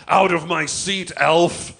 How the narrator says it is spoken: He bellowed

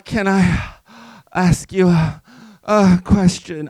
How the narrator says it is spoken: I moaned between thrusts, my legs still wrapped around him and quivering

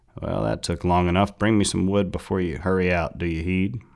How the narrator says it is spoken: Goethe in his usual gruff voice said

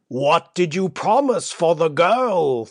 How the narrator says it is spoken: thundered Basavriuk

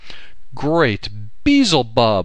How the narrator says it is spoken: I cried

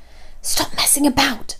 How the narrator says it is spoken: I hissed

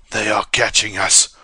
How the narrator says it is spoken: rasped Ko

